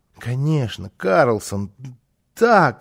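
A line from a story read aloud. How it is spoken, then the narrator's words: Excited stammering child. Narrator (Russian): залепетал малыш, заикаясь от волнения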